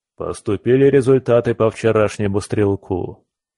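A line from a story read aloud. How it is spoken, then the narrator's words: Dry, matter-of-fact. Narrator (Russian): сухо начал он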